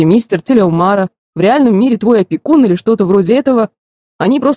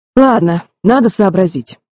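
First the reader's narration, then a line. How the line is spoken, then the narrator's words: Sighing. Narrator (Russian): вздохнул Джереми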